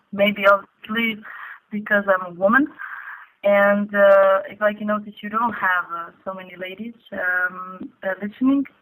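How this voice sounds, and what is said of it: Speaks with a foreign accent. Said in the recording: “With a weird accent.”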